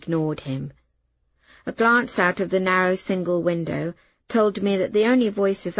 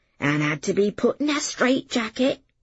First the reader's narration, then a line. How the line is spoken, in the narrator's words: he added, dropping into a dialect stage whisper